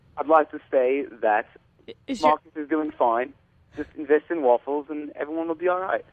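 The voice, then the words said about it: Fake-sounding put-on accent. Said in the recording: “He had a fake accent... I blame you for your fake accent.”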